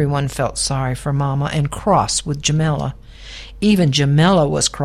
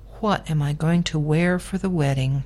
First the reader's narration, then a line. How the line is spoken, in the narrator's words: said sadly